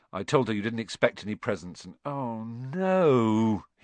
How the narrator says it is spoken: he groaned

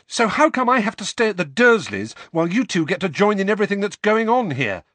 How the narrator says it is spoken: said Harry, the words tumbling over one another in a rush, his voice growing louder with every word

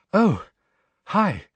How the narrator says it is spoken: she said breathlessly

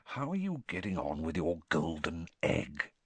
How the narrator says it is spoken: he lowered his voice

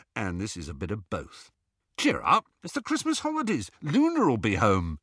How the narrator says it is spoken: said Ron brightly

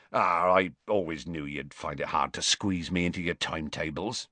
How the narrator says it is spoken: he said gruffly

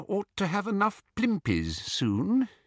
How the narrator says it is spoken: he said quietly

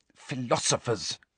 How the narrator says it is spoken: hissed Hermione

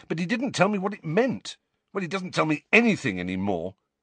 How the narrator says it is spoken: said impatiently

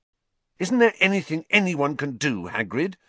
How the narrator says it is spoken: Harry asked fiercely

